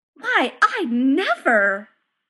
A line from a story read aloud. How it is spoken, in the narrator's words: squawked Saporta